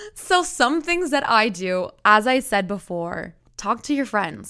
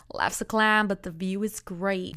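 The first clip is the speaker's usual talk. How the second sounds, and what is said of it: Poorly done put-on accent. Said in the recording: “That accent sucked”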